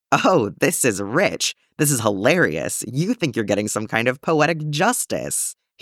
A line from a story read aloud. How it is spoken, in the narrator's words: cackled